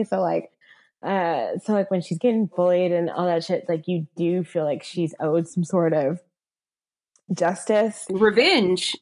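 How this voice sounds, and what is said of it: Valley girl accent. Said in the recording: “my very valley girl accent ... you talked white ... you have a like a weird accent”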